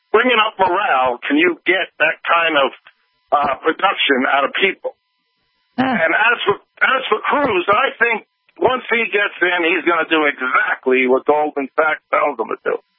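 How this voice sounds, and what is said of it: Thick New York accent. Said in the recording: “that thick New York accent ... your New York accent”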